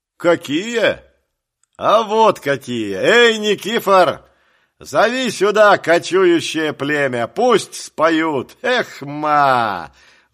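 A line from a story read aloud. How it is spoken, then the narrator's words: Inspired shout. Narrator (Russian): Вдохновенно крикнул он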